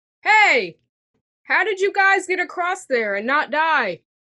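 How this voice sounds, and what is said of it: Yelling. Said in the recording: “you're yelling”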